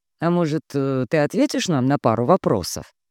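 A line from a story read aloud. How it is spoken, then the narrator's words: Surprisingly calm voice. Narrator (Russian): Его голос звучал на удивление спокойно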